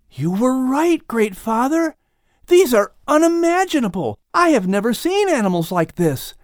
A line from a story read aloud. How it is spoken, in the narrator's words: Lamech exclaims excitedly